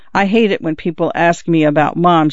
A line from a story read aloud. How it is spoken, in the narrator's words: says